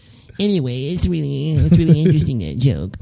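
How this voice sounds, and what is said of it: Imitates another person's voice. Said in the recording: “my Truman Capote impression”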